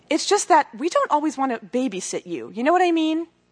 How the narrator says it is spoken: Courtney said firmly

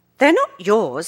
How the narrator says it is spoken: said indignantly

